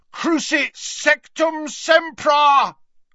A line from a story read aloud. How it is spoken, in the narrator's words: bellowed